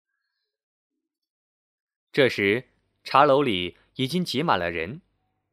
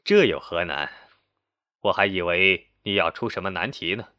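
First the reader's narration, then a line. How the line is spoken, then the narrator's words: Laughing heartily. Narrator (Chinese): 萧翁大笑道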